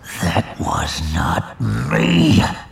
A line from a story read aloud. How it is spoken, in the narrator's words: he growled